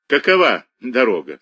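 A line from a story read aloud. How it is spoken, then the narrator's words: Speech then laughter. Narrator (Russian): сказал он опять и засмеялся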